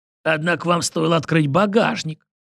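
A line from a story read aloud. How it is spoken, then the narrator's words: Smirking. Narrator (Russian): хмыкнул Кустодий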